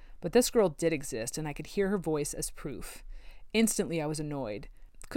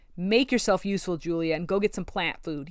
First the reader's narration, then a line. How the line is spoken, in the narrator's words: he snapped